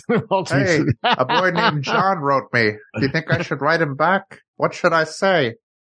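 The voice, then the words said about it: Gerald Ford impression. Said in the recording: “my Gerald Ford impression ... That's pretty good.”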